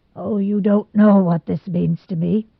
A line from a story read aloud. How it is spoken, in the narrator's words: said brokenly at last